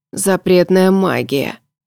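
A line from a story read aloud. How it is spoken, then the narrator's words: Hoarse wheeze. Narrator (Russian): прохрипел Морган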